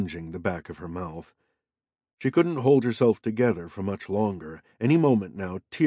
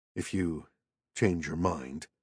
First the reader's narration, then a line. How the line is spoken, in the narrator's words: he murmured